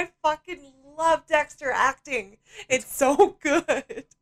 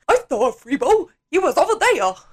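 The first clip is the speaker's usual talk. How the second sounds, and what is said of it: Imitated accent of a TV character. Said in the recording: “It's such a good accent.”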